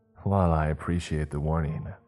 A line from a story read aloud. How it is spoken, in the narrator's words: I said sarcastically